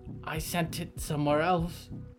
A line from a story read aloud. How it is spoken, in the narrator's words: whispered Harrow, trembling